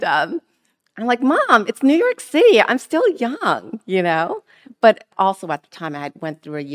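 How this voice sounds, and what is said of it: Usual voice. Nothing is said of it.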